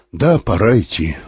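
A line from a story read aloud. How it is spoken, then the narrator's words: Sighing. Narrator (Russian): вздохнул Быков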